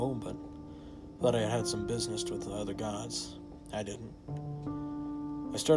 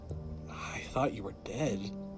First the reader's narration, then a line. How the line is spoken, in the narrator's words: in a shaky voice